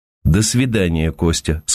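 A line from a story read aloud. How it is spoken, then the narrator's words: Calm. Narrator (Russian): сказала Ася спокойно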